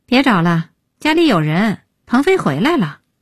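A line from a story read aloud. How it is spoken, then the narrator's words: Sighing. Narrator (Chinese): 叹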